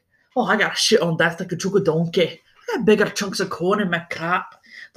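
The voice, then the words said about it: Bad put-on Scottish accent. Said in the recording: “in very horrible Scottish accents ... I'm so sorry for my accent”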